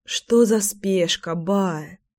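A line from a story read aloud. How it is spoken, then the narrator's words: Sighing. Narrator (Russian): вздохнула я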